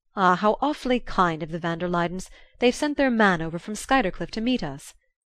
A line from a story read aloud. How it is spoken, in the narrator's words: Archer exclaimed